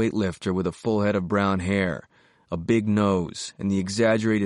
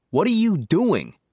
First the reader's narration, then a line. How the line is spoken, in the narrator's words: Whelan snapped